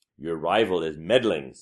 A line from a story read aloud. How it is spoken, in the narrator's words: said a third